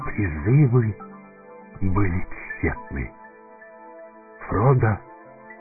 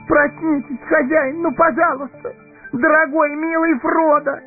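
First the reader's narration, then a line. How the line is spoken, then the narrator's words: Inconsolable sobbing. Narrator (Russian): Безутешно рыдал он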